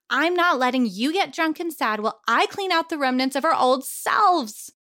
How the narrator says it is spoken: she shouted

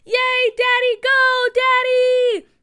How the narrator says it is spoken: Mickey and Booker both stood on their chairs and screamed

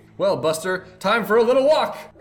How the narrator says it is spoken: said loudly

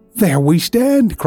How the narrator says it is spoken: cried Walter enthusiastically

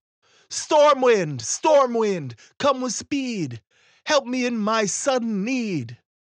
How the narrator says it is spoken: the ferryman called out

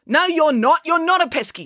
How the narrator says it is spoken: snapped April

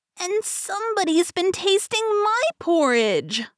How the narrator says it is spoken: squealed the Baby Bear

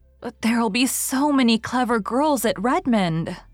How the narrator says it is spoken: sighed Diana

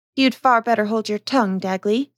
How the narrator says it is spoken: said the wife

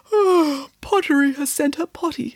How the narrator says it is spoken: said, yawning as she woke up on the floor

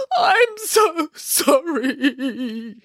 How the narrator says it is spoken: sobbed

